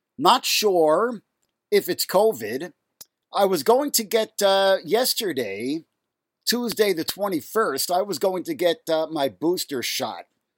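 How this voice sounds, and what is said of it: Raspy, nasal sick voice. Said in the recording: “I hope my voice does not sound more annoyingly raspy and nasal than usual, because I am ill. I have got symptoms for 3 days now.”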